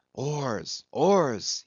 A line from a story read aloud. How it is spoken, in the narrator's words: he intensely whispered